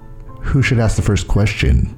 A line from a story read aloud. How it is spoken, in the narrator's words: Angelica asks